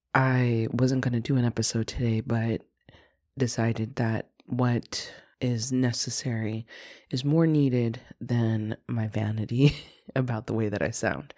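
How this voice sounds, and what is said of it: Congested, raspy sick voice. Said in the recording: “I'm sick. ... Bear with my stuffy nose and raspy throat.”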